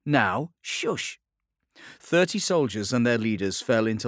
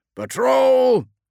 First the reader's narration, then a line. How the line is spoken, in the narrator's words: shouted Vitellius